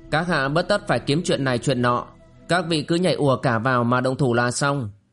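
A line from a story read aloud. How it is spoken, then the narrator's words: Cold interruption. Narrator (Vietnamese): Tiền Đại Nương lạnh lùng ngắt lời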